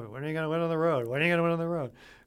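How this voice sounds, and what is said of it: Nasal self-impression, repeated question. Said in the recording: “great impression of yourself ... You're not quite as nasally.”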